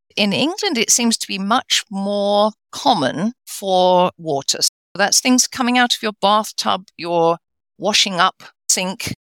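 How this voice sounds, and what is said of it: English accent. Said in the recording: “He lives in England, obviously, as you can tell from the accent.”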